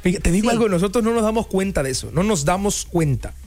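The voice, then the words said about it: Caribbean-sounding coastal Mexican Spanish accent. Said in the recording (Spanish): “tú tienes acento como del allá, colombiano... Cubano, puertoliqueño... Pero sí tienes el acento”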